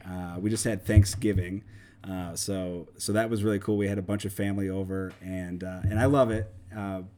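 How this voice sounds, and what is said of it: Slightly raspy voice. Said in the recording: “as you can hear, my voice is a little raspy ... Maybe a little bit of a cold”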